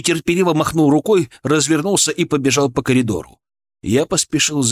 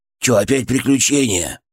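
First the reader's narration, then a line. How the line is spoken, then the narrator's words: Grumbling. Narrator (Russian): проворчал он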